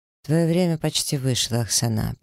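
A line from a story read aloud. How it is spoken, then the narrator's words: Completely unruffled. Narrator (Russian): произношу совершенно невозмутимым тоном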